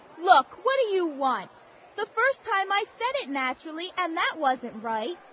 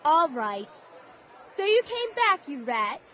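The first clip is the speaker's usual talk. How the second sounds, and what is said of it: Put-on English accent. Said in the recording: “can you say it naturally with an English accent?”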